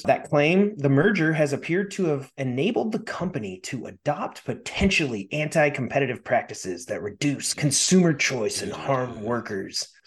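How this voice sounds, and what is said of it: Dramatic movie-trailer announcer voice. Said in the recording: “I started going into my trailer voice there.”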